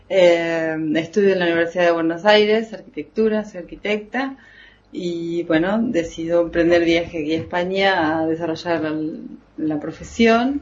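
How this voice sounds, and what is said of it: Argentine Spanish accent. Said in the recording (Spanish): “soy de Argentina ... se me nota en el acento”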